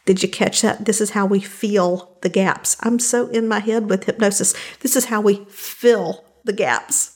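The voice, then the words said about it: Southern American accent. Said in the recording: “A little bit of Southern accent coming through there for you. Unapologetically so.”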